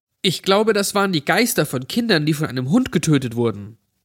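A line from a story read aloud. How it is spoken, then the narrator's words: Plain. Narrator (German): sagte ein anderes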